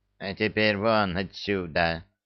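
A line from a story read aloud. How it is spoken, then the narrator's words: Hoarse wheeze. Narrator (Russian): просипел управляющий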